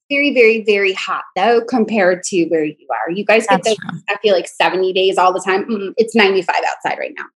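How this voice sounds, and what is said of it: Mixed New York and Southern accent. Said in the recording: “You have like a really specific kind of voice in your accent... My accent's so mixed because I'm from New York, but live in North Carolina”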